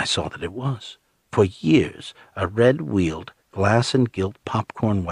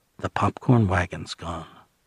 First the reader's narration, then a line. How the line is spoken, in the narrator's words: Becky murmured